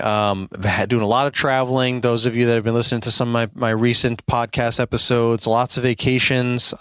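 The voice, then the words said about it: Voice sounds sick, under the weather. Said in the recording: “I'm still a little under the weather here ... my voice might sound a little bit different”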